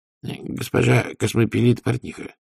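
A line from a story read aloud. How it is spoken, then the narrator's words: Calm correction. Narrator (Russian): спокойно поправил Людзе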